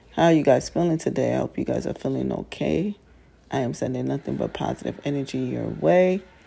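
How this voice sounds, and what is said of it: Low, groggy morning voice. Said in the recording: “my manly morning voice ... that groggy morning voice”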